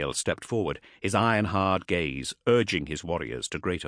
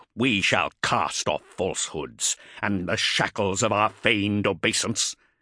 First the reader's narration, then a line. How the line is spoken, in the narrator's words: snarled, as if the words left a bitter taste in his mouth